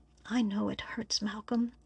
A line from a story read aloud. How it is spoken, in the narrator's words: he whispered in his ear